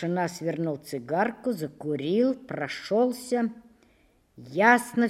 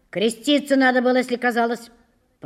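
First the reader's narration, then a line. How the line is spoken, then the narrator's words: Grumbling. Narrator (Russian): проворчал комендант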